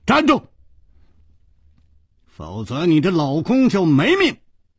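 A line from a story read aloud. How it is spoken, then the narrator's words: Shouting. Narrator (Chinese): 楚留香喊道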